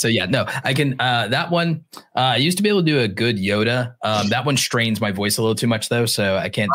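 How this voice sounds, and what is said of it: Usual voice. Nothing is said of it.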